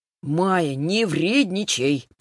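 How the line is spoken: Drawn-out whine. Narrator (Russian): протянул брат

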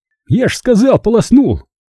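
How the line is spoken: Joyful squeal. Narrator (Russian): Радостно взвизгнул Вася

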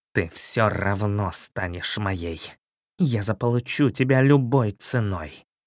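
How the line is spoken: Angry hiss. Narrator (Russian): злобно прошипел

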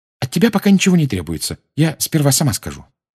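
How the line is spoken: Hurried addition. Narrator (Russian): она торопливо добавила

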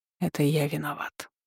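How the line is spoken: Quiet. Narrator (Russian): тихо произнес он

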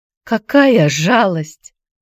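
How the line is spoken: Moan. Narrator (Russian): простонала Клара

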